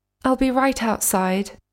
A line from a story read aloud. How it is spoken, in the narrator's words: she said